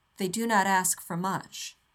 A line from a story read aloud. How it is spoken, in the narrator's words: a woman's voice replies evenly